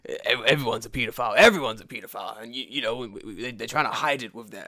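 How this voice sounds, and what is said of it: Alex Jones impression. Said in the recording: “I'm doing my Alex Jones voice now”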